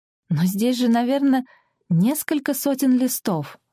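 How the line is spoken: Exclaimed. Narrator (Russian): воскликнул

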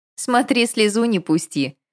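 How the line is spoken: Good-natured snapping. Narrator (Russian): беззлобно огрызнулась Виктория

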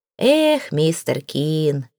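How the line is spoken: Sigh. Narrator (Russian): вздохнул инженер

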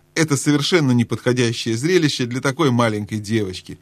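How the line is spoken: Angry, breaking into laughter. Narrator (Russian): сердито начал Трумпкин, но неожиданно рассмеялся

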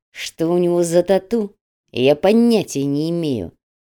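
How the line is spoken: Through gritted teeth. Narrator (Russian): сквозь зубы ответил Солома

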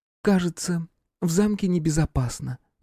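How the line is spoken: Gentle, helpless girlish voice. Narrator (Russian): нежным голосом, каким разговаривают милые беззащитные девушки, изрекла Аэлия

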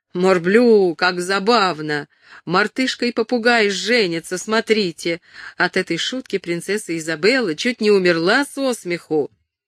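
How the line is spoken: Shouting over shoulder. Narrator (Russian): Нерак закричав через плечо

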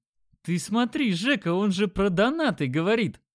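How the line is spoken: Laughing loudly. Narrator (Russian): Димон расхохотался

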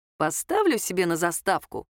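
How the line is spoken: Smirking. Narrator (Russian): хмыкнул Кирилл

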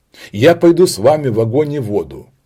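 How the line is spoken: Young man exclaiming. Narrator (Russian): воскликнул молодой японец

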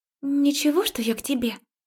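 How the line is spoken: Hesitant, uncertain. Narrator (Russian): помялась неуверенно

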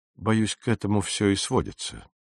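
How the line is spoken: Quiet speech. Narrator (Russian): негромко сказал мистер Кристиан

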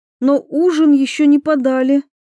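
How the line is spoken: Frightened, astonished. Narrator (Russian): испуганно произнесла Анна, пораженная тем, как лорд-дознаватель вел себя, не боясь гнева Кроули

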